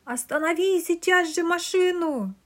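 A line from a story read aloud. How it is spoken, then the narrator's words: Terrifying jolted yell. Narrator (Russian): Страшным голосом заорал Онос после очередного резкого скачка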